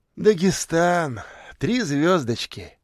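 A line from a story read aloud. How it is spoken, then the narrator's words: Sigh. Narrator (Russian): вздохнул Поляков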